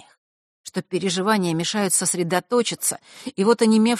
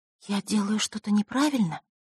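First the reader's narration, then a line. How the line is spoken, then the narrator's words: Quiet whisper. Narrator (Russian): тихо прошептала та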